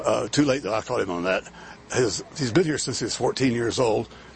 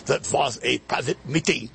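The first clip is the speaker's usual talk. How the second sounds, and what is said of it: Kissinger impression, German accent. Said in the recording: “have to affect the German accent”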